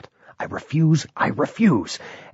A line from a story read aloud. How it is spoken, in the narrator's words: muttering this under his breath